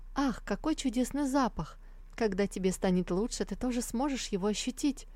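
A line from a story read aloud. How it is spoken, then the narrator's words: Ringing happy chirping voice. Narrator (Russian): щебетала она своим звонким, счастливым голоском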